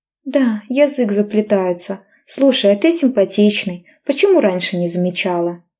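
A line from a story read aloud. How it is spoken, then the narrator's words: Forced laughter. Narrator (Russian): Наигранно хохотала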